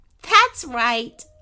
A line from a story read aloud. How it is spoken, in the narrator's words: laughed Princess Candy